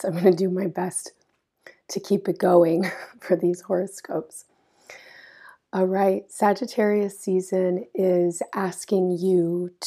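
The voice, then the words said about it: Strained voice, losing her voice. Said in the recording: “losing my voice”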